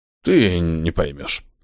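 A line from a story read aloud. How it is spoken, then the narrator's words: Demigod's smirking snort. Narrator (Russian): хмыкнул полубог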